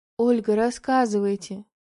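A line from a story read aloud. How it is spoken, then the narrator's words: Soft, gentle. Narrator (Russian): мягко произнес начальник охраны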